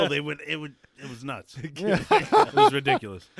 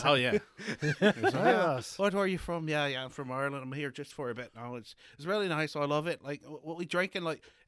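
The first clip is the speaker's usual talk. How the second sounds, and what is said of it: Put-on Irish accent. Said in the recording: “Irish accent time”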